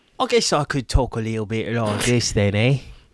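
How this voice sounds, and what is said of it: Put-on Cockney British accent. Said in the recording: “You go British... What kind of British is that?... It's like a little bit Cockney.”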